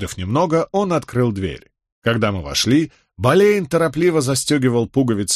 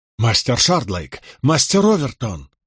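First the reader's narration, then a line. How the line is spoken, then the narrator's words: Worried exclamation. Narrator (Russian): воскликнул Болейн, озабоченно глядя на меня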